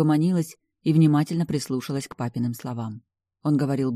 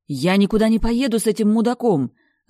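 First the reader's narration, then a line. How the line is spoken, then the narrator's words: Yelling loudly. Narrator (Russian): Заорала я на весь лофт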